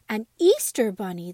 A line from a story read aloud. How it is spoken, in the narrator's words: the dolls all cried